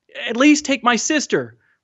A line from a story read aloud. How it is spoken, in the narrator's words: Mahmoud begged